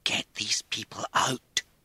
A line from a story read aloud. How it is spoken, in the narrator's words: she hissed